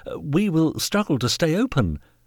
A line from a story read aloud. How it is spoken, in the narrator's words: he stammered